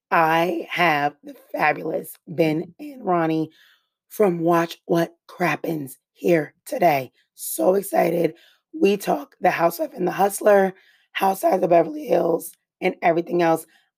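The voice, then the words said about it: Hoarse, strained lost voice. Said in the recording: “I lost my voice, so I will make this incredibly quick ... I recorded with them before I lost my voice, so I don't sound like a wretched dog.”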